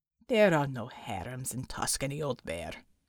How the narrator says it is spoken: growled Unter

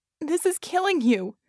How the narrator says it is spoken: she moaned, eyes streaming with real tears now, not just watering

